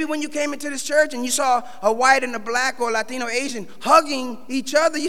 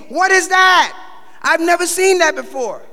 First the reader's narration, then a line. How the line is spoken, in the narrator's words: they were screaming, and they were saying